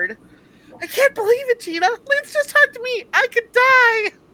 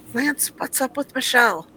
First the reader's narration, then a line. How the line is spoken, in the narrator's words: Gina whispered